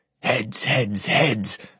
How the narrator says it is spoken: I hiss, praying

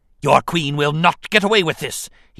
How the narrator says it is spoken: he snapped, enraged at having been deceived

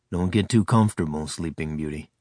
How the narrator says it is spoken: he rumbled teasingly, sounding like his old self

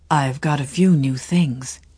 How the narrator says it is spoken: he said, suffused with pleasure, but lowering his voice, as though he feared his fellow passengers might be in league to despoil him

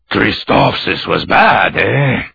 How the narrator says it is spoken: Obi-Wan snorted

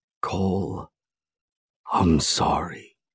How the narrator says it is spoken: he whispers in a peculiar tone, different from the one used at the cabin

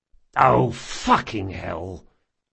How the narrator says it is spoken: Locke muttered

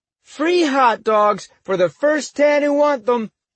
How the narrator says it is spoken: shouted

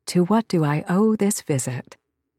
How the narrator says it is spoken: I purred

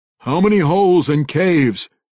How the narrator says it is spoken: Kessel cried aloud

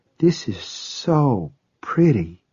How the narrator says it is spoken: she said in a soft, awed voice

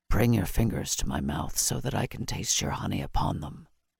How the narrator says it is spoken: Gruffly he commanded

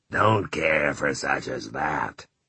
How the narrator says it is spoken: Ralph said in his clotted voice

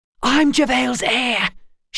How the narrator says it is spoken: she hissed at him like a cat

